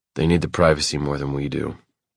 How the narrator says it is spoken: I mutter

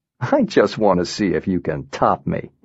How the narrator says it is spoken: he said, laughing

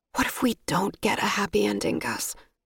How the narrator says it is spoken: I whispered

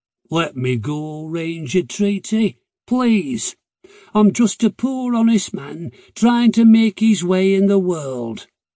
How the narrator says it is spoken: He groaned, then said in a grovelling tone

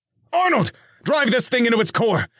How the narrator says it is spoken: Nick shouted

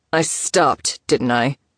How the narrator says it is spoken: Elijah returned, a growl still riding his tone

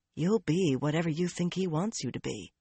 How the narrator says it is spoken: a small voice whispered

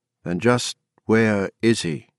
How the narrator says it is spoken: Ev said in a slow voice that was totally unlike his usual one

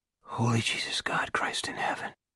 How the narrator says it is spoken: Pete Salbers whispered

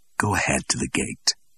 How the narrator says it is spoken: said Suet Face softly

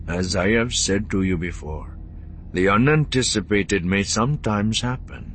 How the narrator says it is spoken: he said evenly

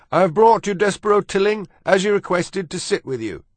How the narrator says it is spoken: shouted Furlow

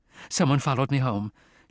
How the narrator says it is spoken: she said in a nervous voice

